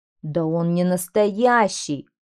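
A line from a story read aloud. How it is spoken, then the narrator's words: Group growling. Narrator (Russian): зарычали они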